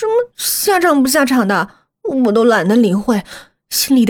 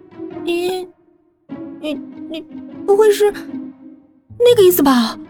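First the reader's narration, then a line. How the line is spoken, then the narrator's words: Stammering. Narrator (Chinese): 忍不住结结巴巴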